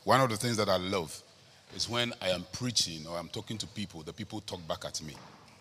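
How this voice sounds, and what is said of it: Strong Ghanaian English accent. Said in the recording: “I'm a Ghanaian. ... I speak Ghana English. ... my accent is so strong and so hard that people don't understand me”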